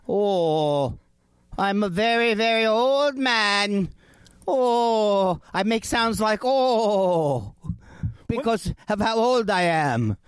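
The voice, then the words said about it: Quavering old man character voice. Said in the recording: “here's my old man”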